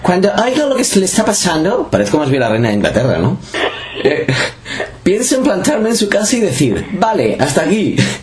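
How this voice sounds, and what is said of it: Imitates another person's voice, foreign accent. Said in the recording (Spanish): “voy a poner voz de Julia Roberts, ¿vale? ... Pero en español, pon un poco de acento.”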